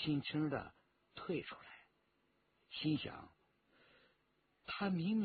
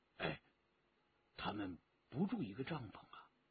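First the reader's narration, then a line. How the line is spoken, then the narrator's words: Quiet question. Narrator (Chinese): 陈正德低声的问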